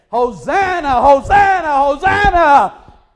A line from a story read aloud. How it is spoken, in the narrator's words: they were hooping and hollering and saying